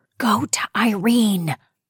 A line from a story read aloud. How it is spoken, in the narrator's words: Bessie whispered